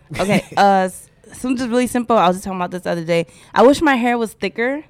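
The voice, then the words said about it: Slight West Indian accent. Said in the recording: “I hear a little bit of an accent that I'm like, you West Indian? ... other people say I do have an accent”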